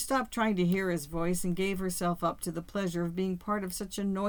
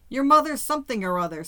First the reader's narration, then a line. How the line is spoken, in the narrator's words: Sam shouted back